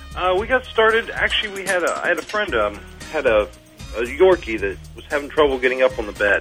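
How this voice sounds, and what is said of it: New York sounding accent. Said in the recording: “You have that sort of New York accent going for you.”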